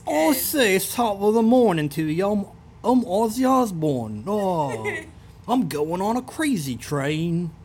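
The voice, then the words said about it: Put-on English accent, imitates another person's voice. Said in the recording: “I think my English accent is pretty good ... That sounded just like him.”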